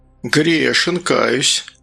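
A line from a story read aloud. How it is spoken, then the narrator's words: Sigh. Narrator (Russian): Гастон вздохнул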